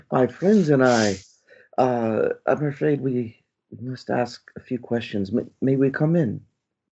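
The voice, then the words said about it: Character voice with sudden accent. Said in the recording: “Otto, who has found an accent suddenly”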